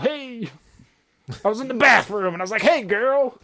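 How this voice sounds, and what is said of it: Rodney Dangerfield impression. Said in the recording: “Rodney Dangerfield”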